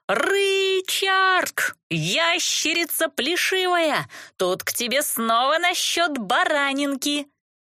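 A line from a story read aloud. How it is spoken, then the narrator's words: Yelled through cupped hands. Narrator (Russian): приставила ко рту ладони и заорала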